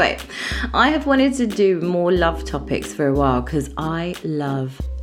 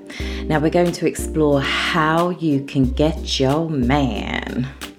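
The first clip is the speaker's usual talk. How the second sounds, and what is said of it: Put-on American accent. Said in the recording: “I don't know why I put an American accent then”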